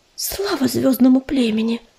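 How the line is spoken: Whispered under breath. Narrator (Russian): прошептала себе под нос белка

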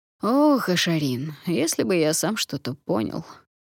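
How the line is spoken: Feigned sigh. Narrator (Russian): наигранно вздохнул пятый дракон

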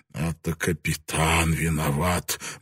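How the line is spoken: Muttered. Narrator (Russian): бормотал Ян Роппер

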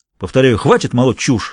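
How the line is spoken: Angry. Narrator (Russian): сердито сказал Виттингтон

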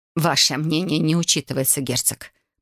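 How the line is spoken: Through gritted teeth. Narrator (Russian): процедила свекровь

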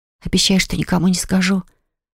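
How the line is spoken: Hoarse whisper. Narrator (Russian): прошептала я неожиданно охрипшим голосом

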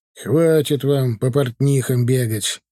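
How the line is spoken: Irritated father. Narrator (Russian): Раздраженно опять начал сегодня отец, обращаясь к матери

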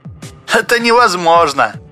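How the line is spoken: Laughing. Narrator (Russian): засмеялся Спицын

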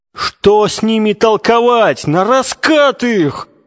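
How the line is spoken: Group yelling. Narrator (Russian): вопил Толоконников и его единомышленники

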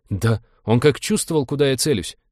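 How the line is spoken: Hurt sob. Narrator (Russian): обиженно всхлипнул навигатор

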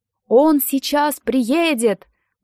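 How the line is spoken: Exclaimed. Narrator (Russian): воскликнула Нэн

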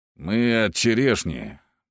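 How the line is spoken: Muttered, young man. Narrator (Russian): пробурчал один из парней в глубоком капюшоне

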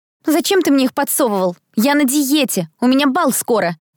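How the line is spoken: Indignant shout. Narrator (Russian): выкрикнула Этери возмущённо

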